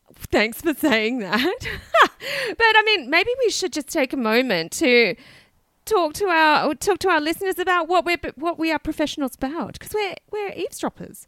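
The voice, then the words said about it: Unwell, rough under-the-weather voice. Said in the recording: “I've been better. I think I've got a summer cold ... apologies if I sound like a bit rubbish today. Just not 100%”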